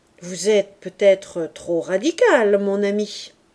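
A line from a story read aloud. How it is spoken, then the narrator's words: Conciliatory interruption. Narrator (French): interrompit l'abbé d'une voix conciliante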